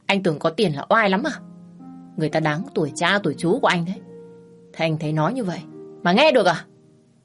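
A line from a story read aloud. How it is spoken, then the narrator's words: Stern, emphatic voice. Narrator (Vietnamese): gằn giọng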